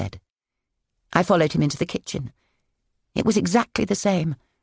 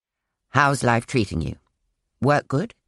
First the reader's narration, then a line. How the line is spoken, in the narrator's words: said Mark stiffly